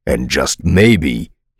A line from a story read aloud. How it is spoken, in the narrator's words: retorted bitterly